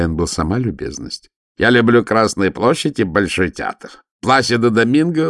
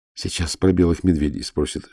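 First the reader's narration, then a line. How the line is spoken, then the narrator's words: Whisper. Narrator (Russian): шепнула Ирина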